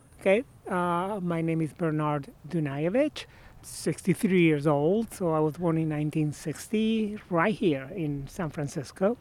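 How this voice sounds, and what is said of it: Argentine-accented English. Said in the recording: “I grew up in Argentina ... as you can guess by my accent”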